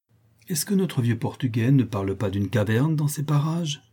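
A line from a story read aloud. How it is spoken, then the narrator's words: Sudden exclamation. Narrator (French): s'écria Gaud tout à coup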